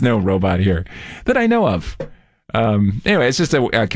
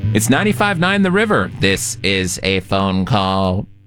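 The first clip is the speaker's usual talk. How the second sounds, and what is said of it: Robot character voice. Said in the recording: “that was actually me doing a robot voice.”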